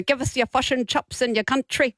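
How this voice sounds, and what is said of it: Terrible put-on accent. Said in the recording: “That's a terrible accent.”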